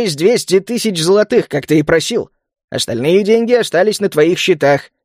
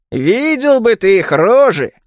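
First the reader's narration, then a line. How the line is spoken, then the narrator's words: Chuckling. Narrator (Russian): хохотнул Мадди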